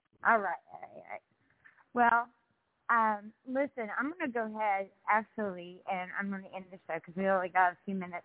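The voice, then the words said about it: Strong country accent. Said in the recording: “I got a country accent from hell. And I don't come off all suave”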